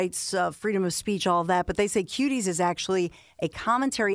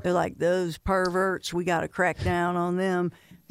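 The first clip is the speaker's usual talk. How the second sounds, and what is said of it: Put-on Texas accent. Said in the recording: “that your Texas? ... my Texas, sorry. ... That's ... Texas accent, all right. ... Which sounds kind of like North Carolina.”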